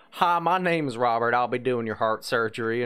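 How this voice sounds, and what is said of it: Put-on Southern American accent. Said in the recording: “somebody with a Southern accent ... I'm a Southern boy”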